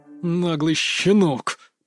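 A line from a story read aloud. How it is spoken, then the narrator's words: Hissed through clenched teeth. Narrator (Russian): процедил сквозь зубы Асоми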